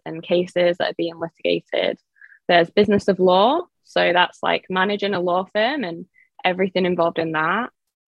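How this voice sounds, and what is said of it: English accent. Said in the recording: “I am originally from England, by the way, so that's why I have this accent”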